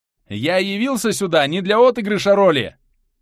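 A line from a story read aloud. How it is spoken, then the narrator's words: Shouting upward. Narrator (Russian): прокричал я в небо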